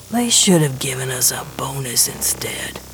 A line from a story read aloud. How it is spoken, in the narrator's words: Gershwin mutters